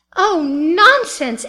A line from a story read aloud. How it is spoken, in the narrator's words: Addie cried passionately